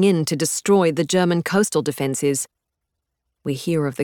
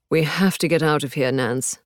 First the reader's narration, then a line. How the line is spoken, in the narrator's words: Hubert says, with an exhausted groan